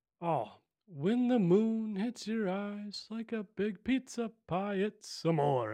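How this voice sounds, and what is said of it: Good impression of Italian crooner. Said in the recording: “That was a pretty good impression though.”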